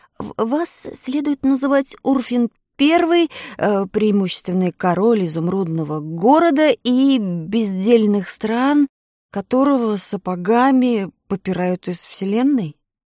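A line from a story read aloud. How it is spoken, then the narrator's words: Stuttering. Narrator (Russian): заикаясь, заговорил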